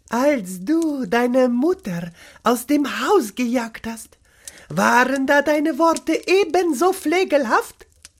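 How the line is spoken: Gentle. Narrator (German): begann sanft

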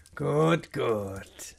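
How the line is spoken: Skeptical murmur. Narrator (German): murmelte, aber sein Ton blieb skeptisch

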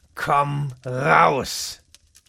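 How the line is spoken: Sharp repeated command. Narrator (German): wiederholte er mit scharfer Stimme

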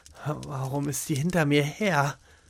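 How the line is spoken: Angry muttering. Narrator (German): murmelte er ärgerlich vor sich hin

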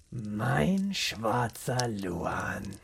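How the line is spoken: Whisper after deep breath. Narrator (German): holte tief Luft und flüsterte

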